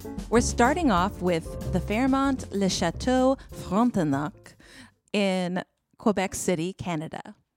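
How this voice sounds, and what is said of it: Terrible put-on French accent. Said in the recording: “the most proper pronunciation that I could possibly give with my terrible French accent”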